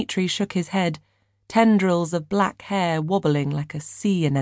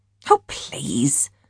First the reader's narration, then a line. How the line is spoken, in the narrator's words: Maddie scoffed